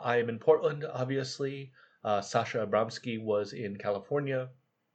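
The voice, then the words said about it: Scratchy, hoarse voice. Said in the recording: “if we sound a bit scratchy and hoarse, uh, that's why, because we were both talking when it literally hurt to do so”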